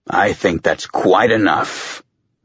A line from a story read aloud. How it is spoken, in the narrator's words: Mendez growled